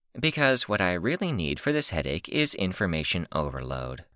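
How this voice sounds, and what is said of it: Quieter voice. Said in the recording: “Tattletale added in a quieter voice”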